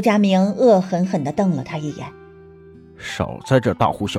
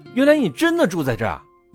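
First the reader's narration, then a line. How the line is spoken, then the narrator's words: Exclaiming aloud. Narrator (Chinese): 齐光远叫出声来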